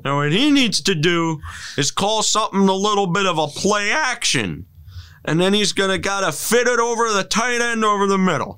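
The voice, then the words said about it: John Madden-style football commentary impression. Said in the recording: “That's a good dialect for John Madden. Yeah. I don't know about the voice. ... yeah, close enough.”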